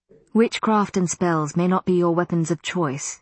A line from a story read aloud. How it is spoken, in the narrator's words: he said softly